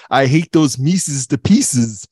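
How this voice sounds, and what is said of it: Mr. Jinx cartoon cat impression. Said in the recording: “Mr. Jinx, who was apparently Dawes Butler doing an impersonation of Marlon Brando ... Oh, that was good ... the impressions are back”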